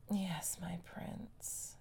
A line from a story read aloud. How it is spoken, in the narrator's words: sighed, but she was crying again